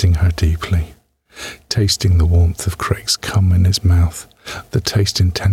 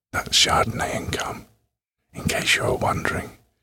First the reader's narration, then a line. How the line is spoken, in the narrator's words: he whispered